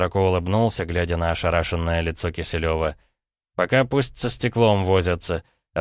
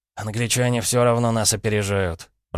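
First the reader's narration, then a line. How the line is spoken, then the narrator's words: Grumbling. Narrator (Russian): пробурчал Киселев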